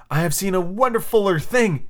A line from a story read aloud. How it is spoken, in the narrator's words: he cried